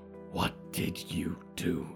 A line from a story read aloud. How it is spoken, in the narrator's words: growled